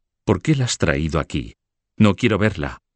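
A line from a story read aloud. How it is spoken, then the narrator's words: Exclaimed. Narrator (Spanish): exclamó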